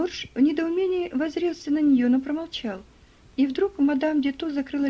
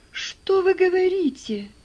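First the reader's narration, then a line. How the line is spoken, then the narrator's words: Astonished exclamation. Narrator (Russian): воскликнул Джордж вне себя от изумления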